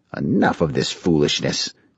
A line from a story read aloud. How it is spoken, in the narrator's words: Grandmaster Naraka growled